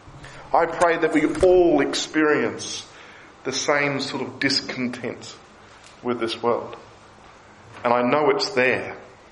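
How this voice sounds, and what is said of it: Australian accent. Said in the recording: “they'll hear my funny accent and they'll ask where I'm from ... Why would you want to move from Australia to this place?”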